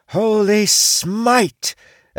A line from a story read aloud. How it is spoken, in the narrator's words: Titha jumped down from a tree, holding a glowing mace and screaming